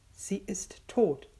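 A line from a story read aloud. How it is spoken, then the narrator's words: Whispered. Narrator (German): flüsterte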